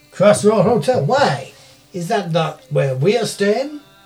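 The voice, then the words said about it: Inconsistent put-on accent. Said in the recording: “Your accent is becoming quite distracting. It's all slightly all over the place.”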